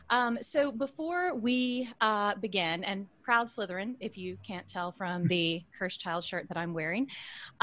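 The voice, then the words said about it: Slightly worn, strained voice. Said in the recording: “if my voice sounds a little shot, but we've been reading chapters out loud all day long”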